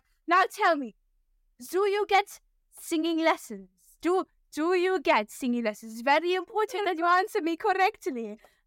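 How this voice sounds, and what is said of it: Very heavy put-on German accent. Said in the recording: “a very, very heavy German accent”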